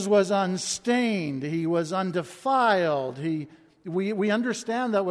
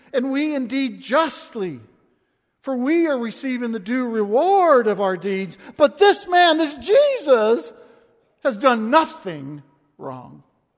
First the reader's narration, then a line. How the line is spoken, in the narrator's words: The thief on the cross cried out